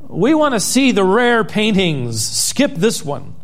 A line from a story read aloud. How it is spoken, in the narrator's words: a voice in the back of the room called out